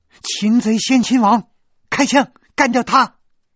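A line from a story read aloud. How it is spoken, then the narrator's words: Shout. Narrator (Chinese): 雪莉杨叫道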